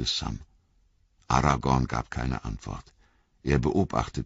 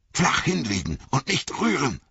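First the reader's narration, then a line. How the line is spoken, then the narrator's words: Hissed. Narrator (German): zischte Aragorn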